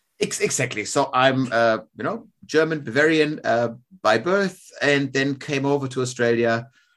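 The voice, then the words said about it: German Bavarian accent. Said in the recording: “the accent's not a classic Australian accent ... the accent's a Bavarian or a German accent”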